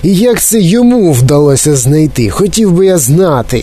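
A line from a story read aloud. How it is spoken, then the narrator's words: Fat boy yelling angrily. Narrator (Ukrainian): сердито загорлав якийсь товстий хлопець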